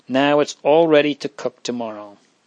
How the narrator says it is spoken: said Marie, rising with a sigh of relief

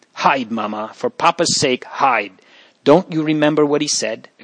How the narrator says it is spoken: exclaimed Arella

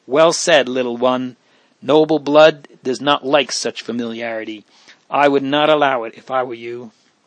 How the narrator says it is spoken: His brothers and sister laughed, and Leonor exclaimed

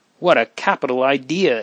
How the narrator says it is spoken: exclaimed Leonore with enthusiasm

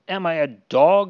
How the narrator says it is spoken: shouts

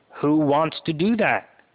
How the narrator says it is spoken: Her voice rings out, trembling with indignation

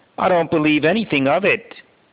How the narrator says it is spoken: Joseph answers harshly

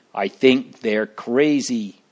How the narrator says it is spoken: one roared

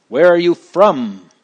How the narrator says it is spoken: the giant roared

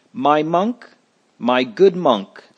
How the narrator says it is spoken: said he

